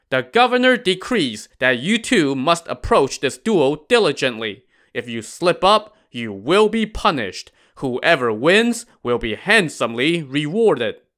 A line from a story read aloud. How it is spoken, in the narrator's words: A flag officer shouted